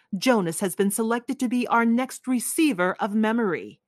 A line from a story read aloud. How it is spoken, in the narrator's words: In a firm, commanding voice, she announced